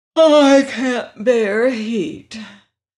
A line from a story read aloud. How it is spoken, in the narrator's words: remarked the Princess Langwidere, yawning lazily